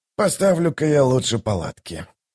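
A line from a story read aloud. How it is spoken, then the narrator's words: Mutter. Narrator (Russian): пробормотал он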